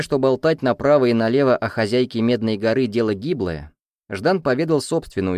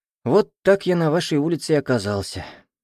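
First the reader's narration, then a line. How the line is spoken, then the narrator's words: Sad boy summing up. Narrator (Russian): грустно подвел итоги мальчик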